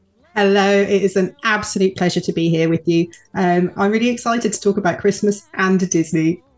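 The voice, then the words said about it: British accent. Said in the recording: “all the way from the U.K. ... Your accent helps too.”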